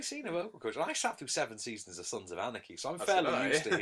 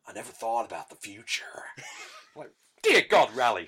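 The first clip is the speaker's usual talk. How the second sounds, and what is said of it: Charlie Hunnam's ropey American accent. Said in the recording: “Charlie Hunnam's American accent ... his ropey American accent”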